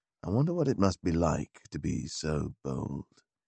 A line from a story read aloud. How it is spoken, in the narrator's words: he said wistfully